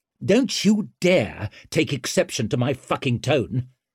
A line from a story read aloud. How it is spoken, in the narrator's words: snapped Orso